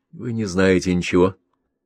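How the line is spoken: Through clenched teeth. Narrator (Russian): процедила Лера

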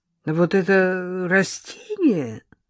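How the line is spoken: Disappointed drawl. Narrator (Russian): разочарованно протянула Лола

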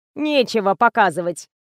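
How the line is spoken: Snide female explanation. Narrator (Russian): ехидно пояснила Лиза

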